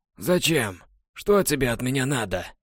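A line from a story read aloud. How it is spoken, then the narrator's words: Hoarse groan. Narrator (Russian): Герцог … хрипло простонал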